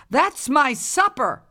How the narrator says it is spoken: yelled the old woman

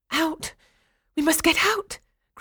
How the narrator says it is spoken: cried one girl

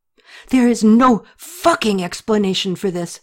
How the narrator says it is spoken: she yelled

